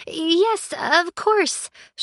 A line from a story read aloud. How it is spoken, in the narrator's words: she stammered